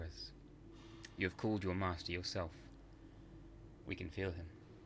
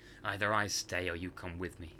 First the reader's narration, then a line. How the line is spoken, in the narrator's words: Cuth growled